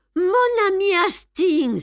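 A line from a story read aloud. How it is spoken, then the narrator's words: Crying out. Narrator (French): s'écria-t-il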